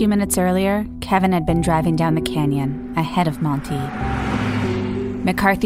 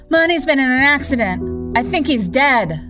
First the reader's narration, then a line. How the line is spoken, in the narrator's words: screaming